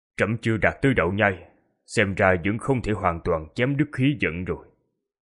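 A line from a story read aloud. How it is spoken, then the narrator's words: Quiet emperor's voice. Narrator (Vietnamese): Đế hoàng của Cổ Tán Quốc nhỏ giọng nói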